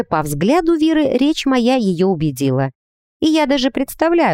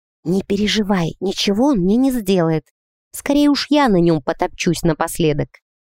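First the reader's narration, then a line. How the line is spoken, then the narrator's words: Quiet whisper. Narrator (Russian): тихо шепнула на ухо подруге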